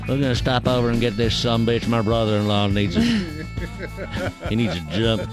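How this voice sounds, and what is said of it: Put-on Texan Southern accent. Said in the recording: “Texan is the number one accent people have the least confidence in.”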